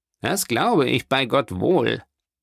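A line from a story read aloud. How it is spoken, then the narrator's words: Plain. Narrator (German): sagte Danglars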